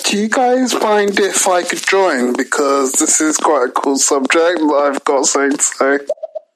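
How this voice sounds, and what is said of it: British accent. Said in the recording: “I believe that is a British accent”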